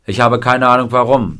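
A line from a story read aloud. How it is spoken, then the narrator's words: Plain. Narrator (German): sagte Buddy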